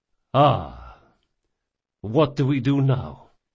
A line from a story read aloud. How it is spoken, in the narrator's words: Doña Vorcenza sighed